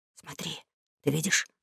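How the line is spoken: Whisper. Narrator (Russian): шепнул Том

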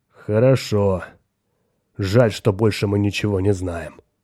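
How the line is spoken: Grumble. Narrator (Russian): проворчал Хоик

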